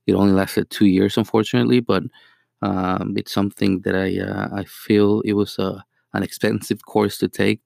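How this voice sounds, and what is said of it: Mexican Spanish accent in English. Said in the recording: “my accent. I'm originally from Mexico. ... obviously the accent is there”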